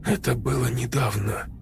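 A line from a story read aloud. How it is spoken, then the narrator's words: Said quietly. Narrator (Russian): тихо сказал он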